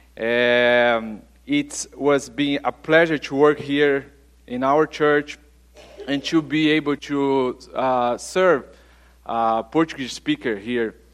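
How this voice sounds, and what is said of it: Brazilian Portuguese accent. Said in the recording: “maybe you try to figure out about my accent, ... I'm from Brazil”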